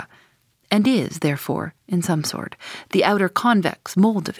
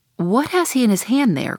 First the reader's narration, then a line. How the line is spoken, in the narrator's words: cried Starbuck